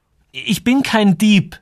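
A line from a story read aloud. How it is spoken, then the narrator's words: Stuttering. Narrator (German): begann Joel, und er merkte, dass er stotterte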